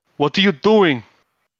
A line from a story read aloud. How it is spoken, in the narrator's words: I will shout